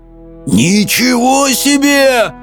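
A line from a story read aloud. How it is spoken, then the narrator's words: Howling. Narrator (Russian): взвыл Хоул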